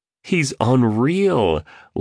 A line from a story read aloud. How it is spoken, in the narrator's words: laughed, clearly entertained